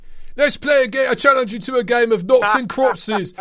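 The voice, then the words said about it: Attempted British Cockney accent. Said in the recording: “My British accent gets better the more drunk I am. Because I get into the Cockney, mate ... I can't do British. I can't do any accent, man”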